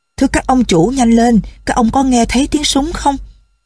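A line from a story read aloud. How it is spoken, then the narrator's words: Coachman calling out urgently. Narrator (Vietnamese): Người đánh xe trông thấy họ liền kêu lên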